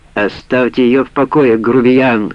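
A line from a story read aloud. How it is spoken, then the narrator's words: Shouted. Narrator (Russian): крикнула Сара Халиду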